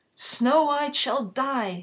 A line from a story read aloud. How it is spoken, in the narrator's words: cried